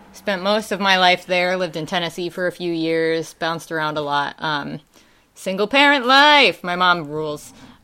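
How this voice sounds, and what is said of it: Wisconsin accent. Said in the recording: “I got my accent. That's definitely from Wisconsin.”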